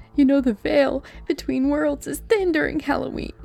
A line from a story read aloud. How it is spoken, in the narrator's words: she sobbed